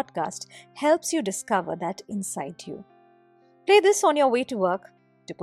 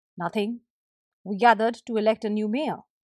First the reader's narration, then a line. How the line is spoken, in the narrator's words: replied the husband